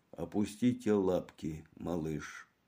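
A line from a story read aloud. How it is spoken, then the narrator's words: Quiet. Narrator (Russian): Магра тихо произнес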